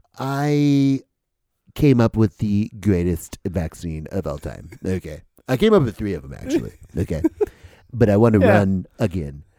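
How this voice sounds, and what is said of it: Imitates another person's voice. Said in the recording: “impersonation ... cheapest Trump impersonator”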